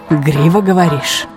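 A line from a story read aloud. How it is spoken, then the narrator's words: Hoarse questioning. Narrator (Russian): переспросил он охрипшим голосом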